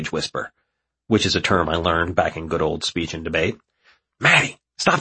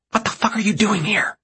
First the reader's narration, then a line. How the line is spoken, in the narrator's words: She shout whispers back